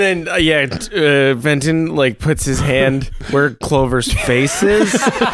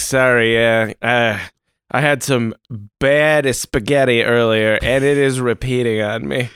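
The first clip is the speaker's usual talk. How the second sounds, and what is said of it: Put-on regional accent. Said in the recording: “you said a spaghetti there. Is that a regional accent ... No, it's a regional accent.”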